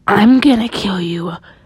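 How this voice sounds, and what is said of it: Deep menacing male voice. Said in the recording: “a man with a deep voice said”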